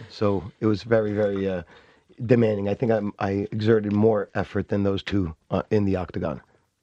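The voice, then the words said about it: Strained, hoarse voice. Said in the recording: “my voice is a little bit, you know, crazy from the fight. We were screaming Paulo, Paulo the whole time.”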